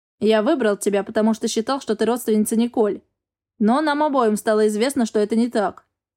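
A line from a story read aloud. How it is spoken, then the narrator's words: Plain. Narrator (Russian): ответил мужчина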